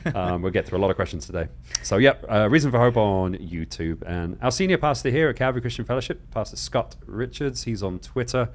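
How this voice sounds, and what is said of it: Talking very fast. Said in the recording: “I just had coffee, that's why I'm talking so fast.”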